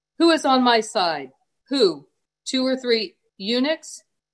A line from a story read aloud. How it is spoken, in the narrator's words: called out